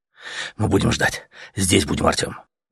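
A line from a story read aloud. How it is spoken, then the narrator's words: Fervent whisper. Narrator (Russian): Горячо зашептал летяга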